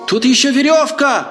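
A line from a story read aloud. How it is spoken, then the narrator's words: Woman shouting. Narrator (Russian): крикнула женщина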